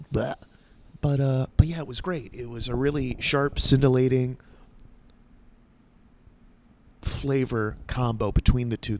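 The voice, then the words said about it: Nasal, congested voice. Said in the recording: “You can hear it in my voice. It's very nasally.”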